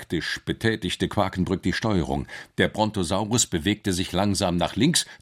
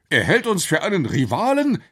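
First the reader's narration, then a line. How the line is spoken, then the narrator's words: Exclaimed. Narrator (German): rief der Professor aus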